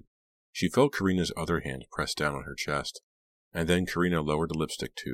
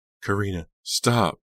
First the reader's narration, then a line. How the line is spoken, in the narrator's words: Delia begged